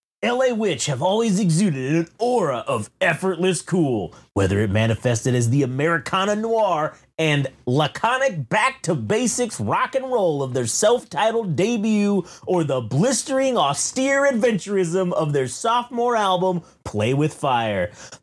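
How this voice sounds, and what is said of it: Mock salesperson voice. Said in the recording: “my fucking salesperson voice”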